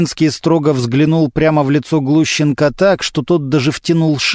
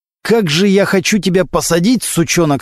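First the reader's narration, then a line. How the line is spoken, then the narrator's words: Through gritted teeth. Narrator (Russian): сказал сквозь зубы прокурор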